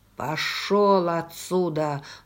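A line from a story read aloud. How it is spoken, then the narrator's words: Menacing command. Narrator (Russian): грозно велел он лейтенанту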